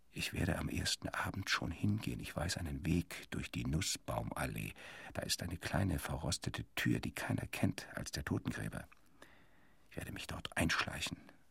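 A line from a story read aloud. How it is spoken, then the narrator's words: Whispering into ear. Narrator (German): flüsterte er in mein Ohr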